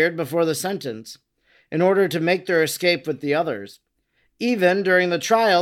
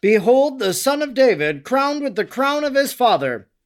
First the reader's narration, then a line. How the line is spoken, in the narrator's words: Sometimes they cried